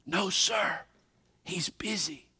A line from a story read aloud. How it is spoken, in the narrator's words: The little guy whispered